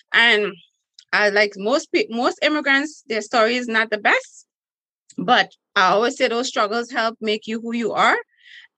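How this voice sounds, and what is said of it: Trinidadian accent. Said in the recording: “As you can hear, I have an accent, which I'm from Trinidad and Tobago, which is one of the sexiest accents in the world.”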